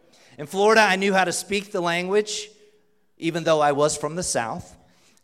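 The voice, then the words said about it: Southern US accent. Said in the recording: “my accent gives me away this morning ... this Southern kid”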